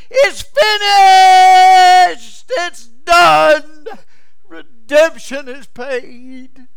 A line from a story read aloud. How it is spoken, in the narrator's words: The waves picked up the chorus, it yelled to the heavens